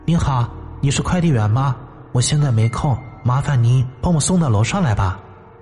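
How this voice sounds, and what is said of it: Gentle, light, pleasant female voice. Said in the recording (Chinese): “悦耳的嗓音……用温婉轻快的声音说道”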